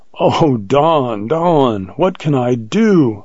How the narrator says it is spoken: cried in horror

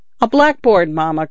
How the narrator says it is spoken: cried one of them

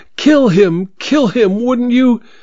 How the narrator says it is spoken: exclaiming

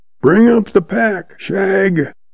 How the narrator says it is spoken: he hollers

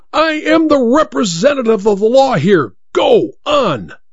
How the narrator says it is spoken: The judge cried out at him in a terrible voice

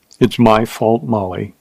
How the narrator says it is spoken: he said softly

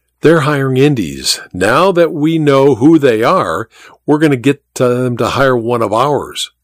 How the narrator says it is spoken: Garza said

